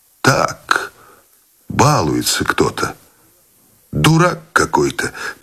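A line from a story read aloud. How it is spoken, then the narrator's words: Quiet speech. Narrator (Russian): тихо сказал тот, что шел следом за старшим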